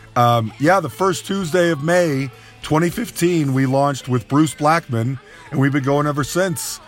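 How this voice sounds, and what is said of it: Slightly congested voice. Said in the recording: “I have a little bit of a cold?”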